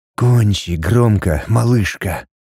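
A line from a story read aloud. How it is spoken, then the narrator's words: Whispering. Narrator (Russian): шептал он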